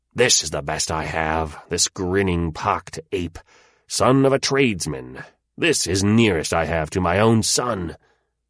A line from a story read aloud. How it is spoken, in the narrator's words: he grow impatient with his nephew, and he said bitterly